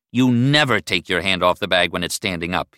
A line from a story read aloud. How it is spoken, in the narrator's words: he growled